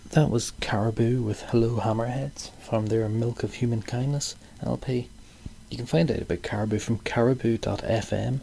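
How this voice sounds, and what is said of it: Dodgy, strange accent. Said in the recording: “my dodgy, strange accent”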